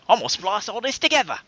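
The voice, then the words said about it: John Oliver impression. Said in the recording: “my John Oliver impression ... spot on”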